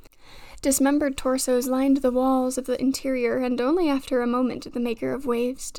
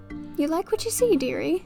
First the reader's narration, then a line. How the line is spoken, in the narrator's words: A voice piped up